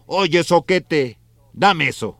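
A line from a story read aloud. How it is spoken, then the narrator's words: Shouting. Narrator (Spanish): Gregorio, desde su máquina, gritó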